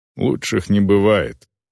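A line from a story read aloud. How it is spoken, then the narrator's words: Muttering. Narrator (Russian): пробормотала орка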